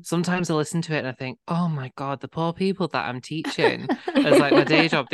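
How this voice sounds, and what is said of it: Strong northern English accent. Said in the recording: “I've just got like a really gay, really northern accent.”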